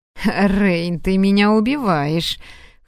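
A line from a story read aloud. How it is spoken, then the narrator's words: Laughing. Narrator (Russian): хохотал офицер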